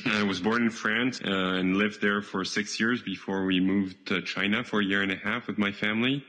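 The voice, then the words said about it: French accent. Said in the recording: “first he's French ... try to listen past the accent”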